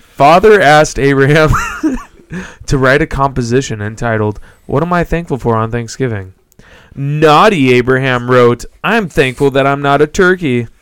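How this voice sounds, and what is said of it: Reads joke in put-on accent. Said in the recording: “The accent?”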